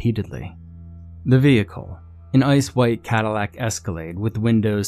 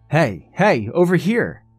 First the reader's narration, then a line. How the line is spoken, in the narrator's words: She waved her arms and yelled